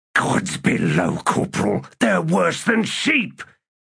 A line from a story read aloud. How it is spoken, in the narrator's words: Cuttle hissed